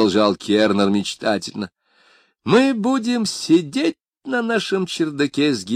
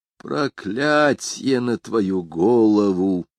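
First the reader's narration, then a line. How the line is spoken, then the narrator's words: Hissed. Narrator (Russian): прошипел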